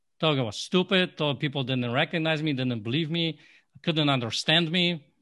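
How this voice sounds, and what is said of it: Non-native English accent. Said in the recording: “I started learning English, the accent, I hated it. Hated my accent. ... what the hell is he saying? ... I did not like my, you know, accent.”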